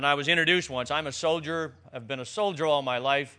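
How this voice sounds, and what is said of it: Newfoundland accent. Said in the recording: “as you probably already know by my accent, I am a Newfoundlander. Nobody could understand a single word that I said”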